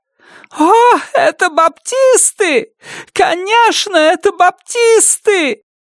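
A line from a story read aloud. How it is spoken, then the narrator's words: Shrieking, then crying. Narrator (Russian): Завизжала Бетси и снова заплакала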